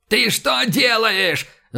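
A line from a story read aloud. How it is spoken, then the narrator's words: Yelling at someone. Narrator (Russian): заорал Иван на шкипера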